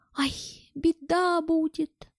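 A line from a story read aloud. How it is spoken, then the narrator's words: Whimpering. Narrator (Russian): заскулил Боря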